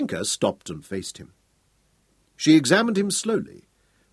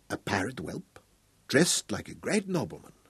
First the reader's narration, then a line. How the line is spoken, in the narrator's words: coolly said softly